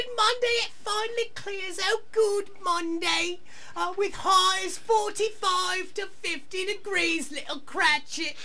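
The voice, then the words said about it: Monty Python-style man playing woman, British. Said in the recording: “that is such the Monty Python guy playing a woman, you know, British accent ... on stage, honestly, it's even louder and more projected”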